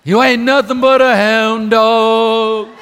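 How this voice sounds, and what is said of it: Sings imitating another person's voice. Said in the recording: “I actually was an Elvis impersonator for a number of years.”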